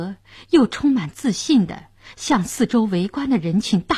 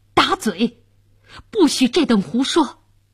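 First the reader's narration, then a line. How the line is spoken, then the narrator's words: Furious. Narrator (Chinese): 监斩官大怒道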